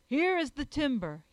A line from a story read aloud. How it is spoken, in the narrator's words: he cried